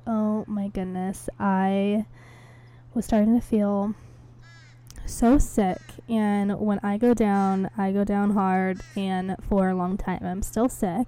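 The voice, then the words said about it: Hoarse, congested voice from a cold. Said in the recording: “I did end up losing my voice, ... I just have this, like, crazy cold”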